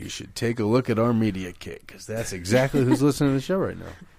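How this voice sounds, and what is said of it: Put-on radio announcer voice. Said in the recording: “you like that radio voice? I'm working on it.”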